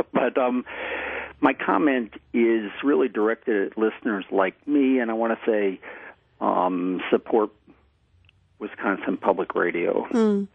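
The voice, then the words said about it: Choked-up, emotional voice. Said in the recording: “I'm a little choked up here”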